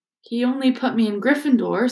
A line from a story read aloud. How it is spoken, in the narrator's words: said Harry in a defeated voice